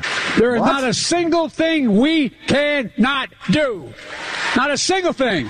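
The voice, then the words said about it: Yelling. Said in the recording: “Why is he yelling? Of course you're going to lose your voice there at the end.”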